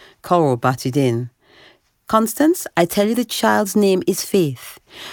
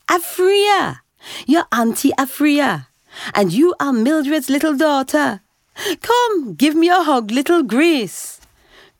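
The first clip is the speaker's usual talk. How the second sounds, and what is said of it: Jamaican accent. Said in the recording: “Her accent was pure Jamaican.”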